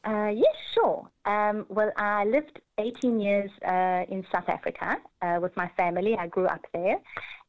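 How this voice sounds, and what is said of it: South African and Australian accent. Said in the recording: “she's lived in Australia and South Africa, if you're wondering where her accent is from”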